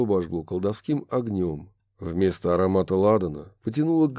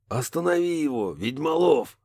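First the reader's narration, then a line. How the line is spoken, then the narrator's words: Distant hoarse shout. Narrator (Russian): донесся издалека хриплый голос Барри О'Салливана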